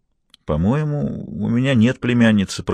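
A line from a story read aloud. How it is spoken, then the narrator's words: Uncertain hesitant speech. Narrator (Russian): проговорил он неуверенным тоном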